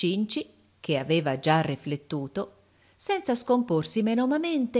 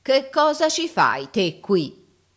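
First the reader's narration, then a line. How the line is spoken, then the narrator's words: Stentorian voice. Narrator (Italian): apostrofandolo con la voce stentorea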